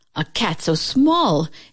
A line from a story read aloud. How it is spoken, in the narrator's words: exclaimed the farmer